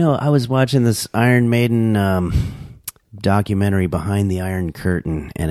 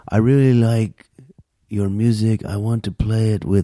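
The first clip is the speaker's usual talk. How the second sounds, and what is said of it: Put-on foreign accent. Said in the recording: “I don't know what accent I'm doing. ... I'm just trying to imitate what I saw ... A foreigner.”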